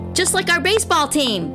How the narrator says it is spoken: Benedict shouted

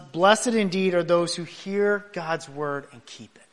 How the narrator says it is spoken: Jesus calmly responds

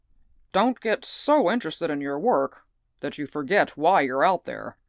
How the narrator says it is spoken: growled Stetson

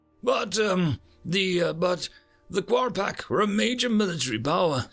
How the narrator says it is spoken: stammered Watson

